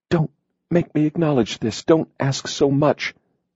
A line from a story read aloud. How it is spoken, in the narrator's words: they pleaded